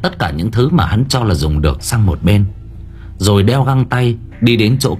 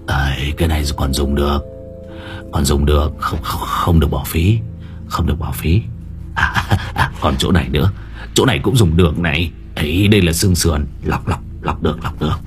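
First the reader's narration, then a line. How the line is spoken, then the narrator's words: Muttering. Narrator (Vietnamese): lẩm bẩm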